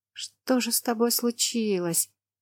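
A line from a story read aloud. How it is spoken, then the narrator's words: Muttered. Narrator (Russian): пробормотала я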